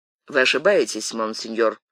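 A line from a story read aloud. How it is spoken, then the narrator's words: Dry. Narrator (Russian): сухо сказал Атос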